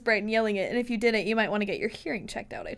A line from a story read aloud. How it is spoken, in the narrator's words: I chuckled